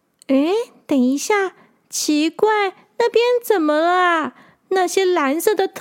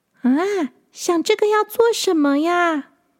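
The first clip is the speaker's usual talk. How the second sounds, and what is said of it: Quiet, softly spoken question. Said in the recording (Chinese): “小声的问”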